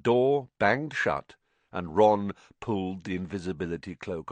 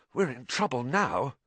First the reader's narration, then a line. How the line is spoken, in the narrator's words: said hoarsely